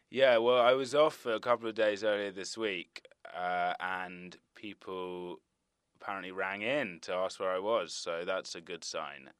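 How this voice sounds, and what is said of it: English accent. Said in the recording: “you are all fooled by my English accent”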